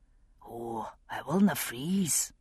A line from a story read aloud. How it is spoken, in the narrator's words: he said softly